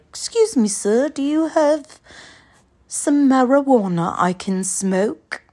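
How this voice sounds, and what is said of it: Formal-sounding put-on accent. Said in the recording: “I don't know why that required an accent. It felt like more formal”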